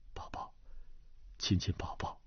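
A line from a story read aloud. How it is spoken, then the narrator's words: Soft, overcome. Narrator (Chinese): 段正淳忍不住低声道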